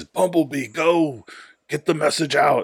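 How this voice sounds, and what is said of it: Optimus Prime character impression. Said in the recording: “my stellar impression of Optimus Prime.”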